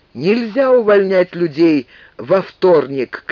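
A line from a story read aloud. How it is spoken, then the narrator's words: Shouting. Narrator (Russian): кричал он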